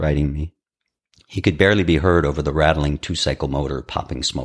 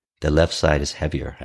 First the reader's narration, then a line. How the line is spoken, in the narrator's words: said